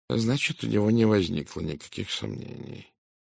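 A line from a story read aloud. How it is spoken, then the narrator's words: Thoughtful mutter. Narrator (Russian): задумчиво пробурчал Пуаро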